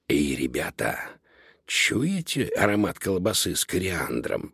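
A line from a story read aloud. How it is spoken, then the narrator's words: Whisper. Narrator (Russian): прошептал Додо, нюхая воздух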